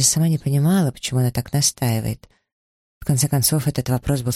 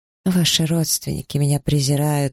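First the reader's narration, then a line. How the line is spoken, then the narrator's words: Muffled moan. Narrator (Russian): простонала она, прикрывая лицо ладонями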